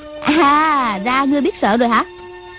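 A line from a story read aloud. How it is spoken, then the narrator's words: Scornful young woman. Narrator (Vietnamese): Thiếu nữ cười khẩy hỏi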